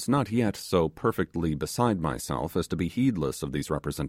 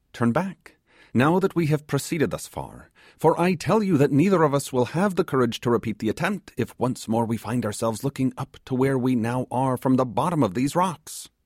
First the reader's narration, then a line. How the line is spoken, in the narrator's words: he exclaimed